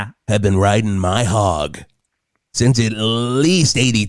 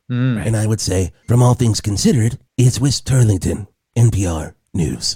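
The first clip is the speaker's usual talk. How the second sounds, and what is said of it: NPR radio announcer voice, pausing. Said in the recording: “I do have my NPR voice ... You do that NPR voice, you have like so many pauses ... flip a switch”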